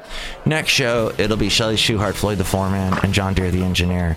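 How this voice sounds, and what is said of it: Tired, run-down voice. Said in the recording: “I'm feeling a little run down today. You can probably hear it in my voice.”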